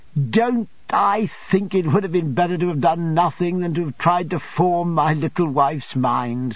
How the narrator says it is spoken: said I, laughing at myself

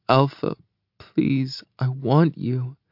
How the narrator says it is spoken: whines

